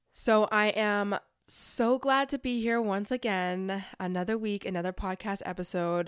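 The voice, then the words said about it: Slightly off, sick-sounding voice. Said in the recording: “my voice. I'm still sick ... my voice is still a little bit off. So if you feel as though it's sounding off, it's because it is.”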